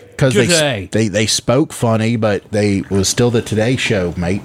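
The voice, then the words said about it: Poor put-on Australian accent. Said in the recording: “I can't do an Australian accent, so I'm sorry for betraying your dialect.”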